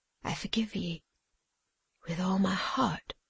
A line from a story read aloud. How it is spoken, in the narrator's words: said Tom faintly